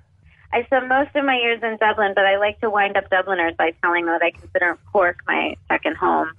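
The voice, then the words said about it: Strong Boston accent. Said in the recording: “there's a strong Bostonian accent there”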